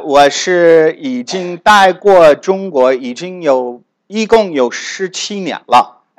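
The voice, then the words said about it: Northern Chinese accent with American traces. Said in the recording (Chinese): “有可能你可以听出来我的口音，我是一般大部分的时间是在北方留的。 ... 可是说不定你也会听到我的美国口音。 ... 你就会知道我是美国南方来的。”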